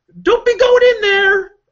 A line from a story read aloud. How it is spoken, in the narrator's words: yelling at the screen